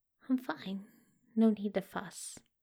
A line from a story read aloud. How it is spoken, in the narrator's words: Crowley muttered